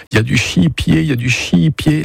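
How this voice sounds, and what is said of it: Strongly pronounced regional French accent. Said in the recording (French): “L'accent très prononcé”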